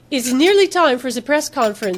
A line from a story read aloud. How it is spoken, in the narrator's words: she said in her fake accent